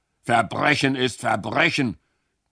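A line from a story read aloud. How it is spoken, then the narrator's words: Policeman's grunt. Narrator (German): grunzte der Arm des Gesetzes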